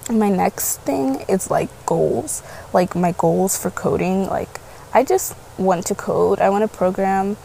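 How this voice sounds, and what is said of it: Raspy just-woken-up voice. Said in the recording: “I should have just woke up. ... my raspy voice”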